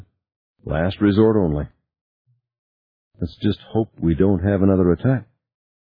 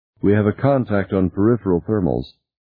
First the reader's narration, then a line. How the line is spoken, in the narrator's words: Tina said in a flat voice